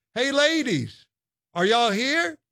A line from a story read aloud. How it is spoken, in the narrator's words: she called out